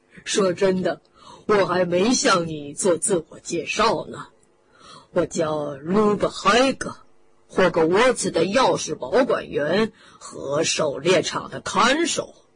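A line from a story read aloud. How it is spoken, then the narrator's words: Giant chuckling. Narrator (Chinese): 巨人咯咯地笑起来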